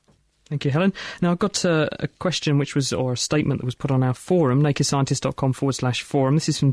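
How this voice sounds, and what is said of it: Usual voice. Nothing is said of it.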